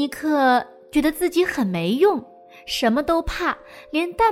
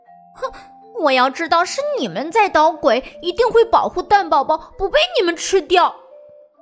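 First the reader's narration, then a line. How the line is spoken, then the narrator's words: Loud mocking. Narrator (Chinese): 一只窃蛋龙大声嘲笑尼克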